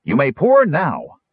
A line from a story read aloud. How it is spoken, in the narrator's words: Stutz called out